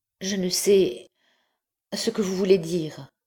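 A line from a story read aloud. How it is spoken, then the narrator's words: Stammering. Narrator (French): répondit-elle en balbutiant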